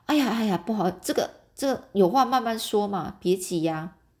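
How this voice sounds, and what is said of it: Flustered, hushed voice. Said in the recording (Chinese): “有点慌张啊，赶紧就 小声说”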